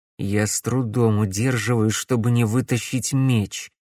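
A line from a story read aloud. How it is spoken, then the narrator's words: Through gritted teeth. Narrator (Russian): сквозь зубы проговорил Макс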